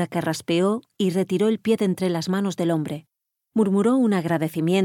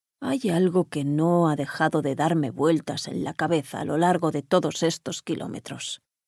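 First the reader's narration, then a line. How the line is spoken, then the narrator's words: Murmured as if to himself. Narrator (Spanish): murmuró él casi como si hablase para sí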